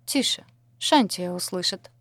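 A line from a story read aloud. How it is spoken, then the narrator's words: Calm. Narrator (Russian): сказала спокойно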